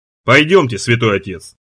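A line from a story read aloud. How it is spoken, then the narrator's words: Plain. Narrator (Russian): говорит сержант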